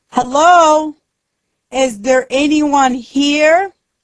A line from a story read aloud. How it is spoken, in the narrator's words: He shouts